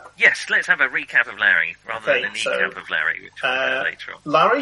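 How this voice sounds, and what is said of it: Usual voice. Nothing is said of it.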